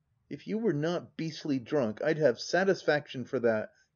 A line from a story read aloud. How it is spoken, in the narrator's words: gasped Hargrave, white and breathless as much from passion as from the immediate effects of the blow